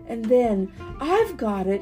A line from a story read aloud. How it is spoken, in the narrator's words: she cried